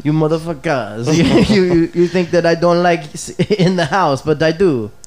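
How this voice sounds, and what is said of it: Put-on French accent, sounds Italian. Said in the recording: “Keep going with your French accent... That was more Italian than it was French.”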